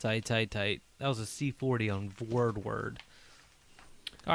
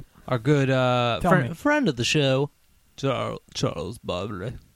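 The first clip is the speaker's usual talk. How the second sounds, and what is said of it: Imitates another person's voice. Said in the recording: “Why are you talking like that? ... Because that's how he talked. ... He's doing an impression again.”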